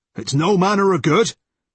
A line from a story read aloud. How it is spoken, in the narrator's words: he shouted